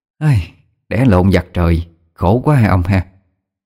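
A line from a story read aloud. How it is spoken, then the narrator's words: Sighing lament. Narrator (Vietnamese): Mẹ tôi thở dài, nói với cha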